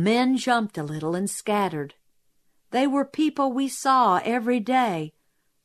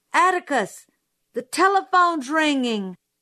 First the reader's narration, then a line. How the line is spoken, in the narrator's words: Suddenly Jim screamed